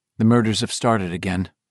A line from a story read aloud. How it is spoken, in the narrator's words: Mike said flatly